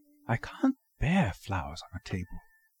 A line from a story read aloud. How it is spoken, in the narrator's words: I heard her murmur